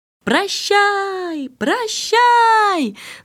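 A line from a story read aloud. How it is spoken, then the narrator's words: Two voices shouting. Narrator (Russian): закричали принц и принцесса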